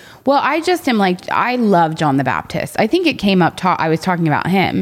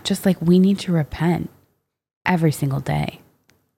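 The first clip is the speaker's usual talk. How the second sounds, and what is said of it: Impression of a friend, sincere tone. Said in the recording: “That's my Jenna impression. I've never done one before. ... Vote down below if that was a good impression or not. ... But like the sincerity”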